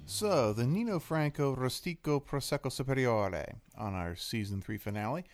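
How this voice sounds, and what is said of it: Sing-songy put-on accent. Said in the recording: “Excellent job on the accent, by the way. ... A nice little ring, a little sing-songy.”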